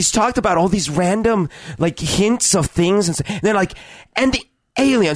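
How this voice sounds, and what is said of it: Usual voice. Nothing is said of it.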